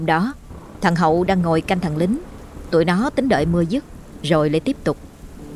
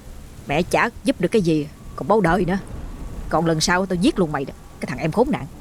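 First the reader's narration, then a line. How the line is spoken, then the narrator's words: Angry muttering. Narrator (Vietnamese): thằng Hậu vừa lẩm bẩm bực tức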